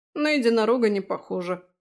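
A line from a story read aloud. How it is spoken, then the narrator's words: Snorted. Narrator (Russian): фыркнул Фрей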